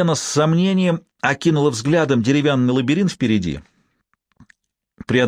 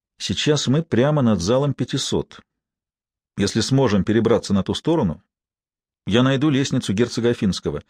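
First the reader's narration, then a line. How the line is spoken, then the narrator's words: Quiet. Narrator (Russian): Лэнгдон тихо проговорил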